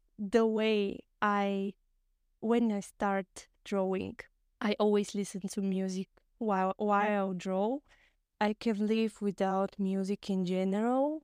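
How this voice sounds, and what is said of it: Strong non-native English accent. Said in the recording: “Especially if you are English speaker and you're listening to me, sorry about my horrible accent”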